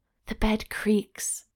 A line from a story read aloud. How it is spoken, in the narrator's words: she whispered